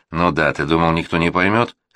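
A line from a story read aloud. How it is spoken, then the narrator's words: Snort. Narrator (Russian): хмыкнул Гектор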